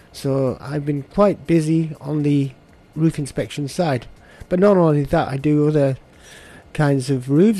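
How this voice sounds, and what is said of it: Slight northwest English accent. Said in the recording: “I'm detecting a bit of an accent ... The northwest ... A little town called Barrow in Furness”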